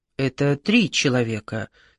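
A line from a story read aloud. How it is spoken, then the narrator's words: Quiet. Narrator (Russian): тихо сказала Маргарита Тихоновна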